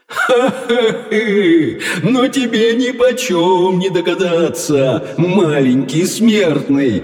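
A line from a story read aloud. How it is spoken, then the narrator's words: Loud laughter. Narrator (Russian): хохотал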